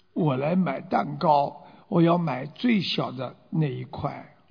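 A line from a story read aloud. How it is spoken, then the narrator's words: Quiet, timid beggar. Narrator (Chinese): 这乞丐小声的对这个伙计说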